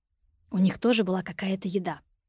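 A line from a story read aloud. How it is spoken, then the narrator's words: Loud whisper. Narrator (Russian): предположила Юля громким шепотом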